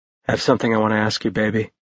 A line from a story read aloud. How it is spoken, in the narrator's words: Ash murmured next to her ear